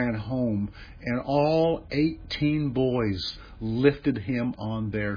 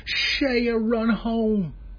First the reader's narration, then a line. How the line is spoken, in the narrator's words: the boys from both teams screaming